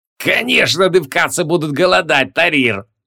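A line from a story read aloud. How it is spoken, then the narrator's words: Loud laughter. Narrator (Russian): расхохотался Зутеба Шут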